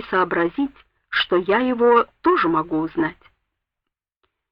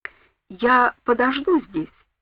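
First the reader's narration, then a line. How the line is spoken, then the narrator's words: Plain. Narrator (Russian): сказала Сэнди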